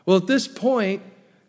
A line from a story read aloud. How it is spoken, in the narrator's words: Joseph yells out in Egyptian